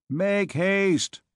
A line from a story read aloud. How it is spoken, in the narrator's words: shouted Tristan